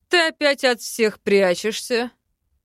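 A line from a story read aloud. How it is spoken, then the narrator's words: Mocking question. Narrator (Russian): спросил насмешливо лорд Айкальд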